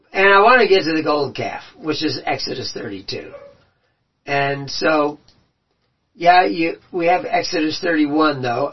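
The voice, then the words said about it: Strained, fading voice. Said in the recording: “I'm already losing my voice”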